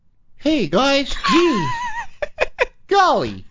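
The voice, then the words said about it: Stereotypical wholesome white-kid voice. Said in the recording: “can you do an impression of how you used to talk really white?”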